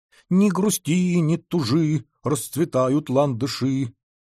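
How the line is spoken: Purring. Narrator (Russian): промурлыкала буква

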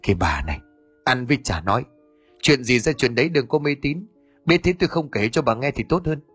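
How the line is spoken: Low irritated snap. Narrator (Vietnamese): Ông Đức lúc này trừng mắt khẽ gắt

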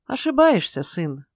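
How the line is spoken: Sad smiling tone. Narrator (Russian): Ной грустно улыбнулся

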